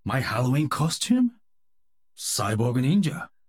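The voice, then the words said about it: Impression of Overwatch's Genji. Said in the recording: “Overwatch character impersonation ... Genji”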